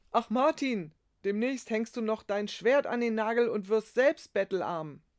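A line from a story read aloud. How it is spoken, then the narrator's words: Laughing call. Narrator (German): Einer lachte und rief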